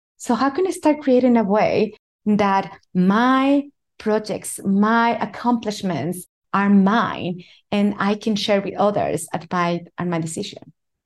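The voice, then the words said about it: Latino-accented English. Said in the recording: “as a Latino, most people were looking at my skin, hearing my accent”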